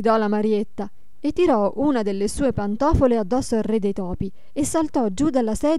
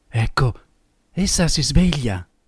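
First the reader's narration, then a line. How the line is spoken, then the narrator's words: Low voice. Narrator (Italian): disse a bassa voce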